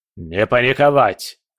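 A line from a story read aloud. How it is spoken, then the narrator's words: Barked. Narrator (Russian): рявкнул он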